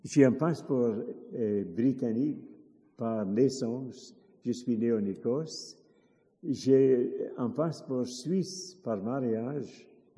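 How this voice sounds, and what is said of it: French spoken with foreign accent. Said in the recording (French): “Je parle accent, mais ça ne fait rien.”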